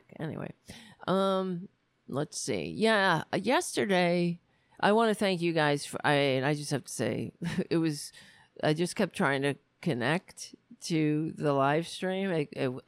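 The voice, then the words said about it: Strained, failing voice. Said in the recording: “we'll have to put up with my voice. See how long I can talk without losing my voice completely”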